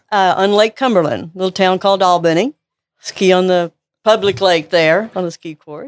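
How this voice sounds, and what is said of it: Slight Kentucky accent. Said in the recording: “She's got a little bit of an accent. So where is that accent from? ... From Kentucky.”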